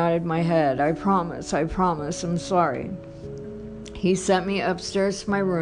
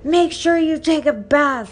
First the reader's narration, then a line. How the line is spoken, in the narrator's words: yelled